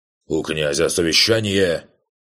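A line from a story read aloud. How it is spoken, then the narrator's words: Barked. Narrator (Russian): рявкнул секретарь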